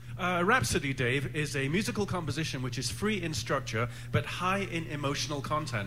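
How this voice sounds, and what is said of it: English accent. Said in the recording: “I was born across the pond ... in the mountains of England ... in an English accent”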